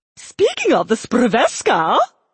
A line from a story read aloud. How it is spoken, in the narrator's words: she said eagerly